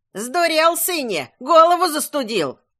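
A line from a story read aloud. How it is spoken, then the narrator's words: Old woman scolding shout. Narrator (Russian): кричала на Бебрю его мать, бабка Витоха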